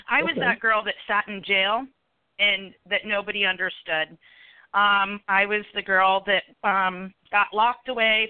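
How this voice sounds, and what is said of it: Emotional, choked-up voice. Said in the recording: “Sorry, I don't mean to get emotional.”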